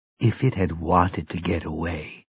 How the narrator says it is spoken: Mia said quietly

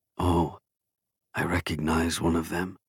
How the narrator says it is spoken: Masut whispered

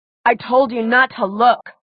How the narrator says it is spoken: Alaric growled

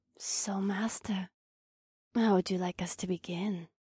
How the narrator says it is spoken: Akira purred

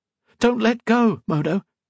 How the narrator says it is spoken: she cried

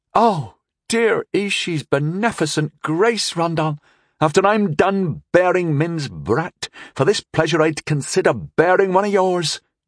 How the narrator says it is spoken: she exclaimed

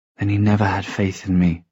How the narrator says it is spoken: she whispered

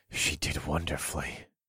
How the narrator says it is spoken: I panted

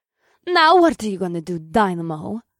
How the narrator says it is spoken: the Russian superheroine taunted

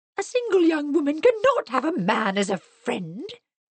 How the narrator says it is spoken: exclaimed Mrs

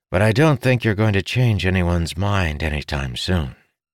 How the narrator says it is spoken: Ildin said with a sigh

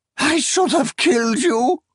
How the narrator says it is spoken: she shrieked

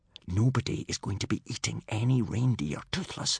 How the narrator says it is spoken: whispered Hiccup

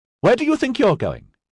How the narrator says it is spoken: snapped

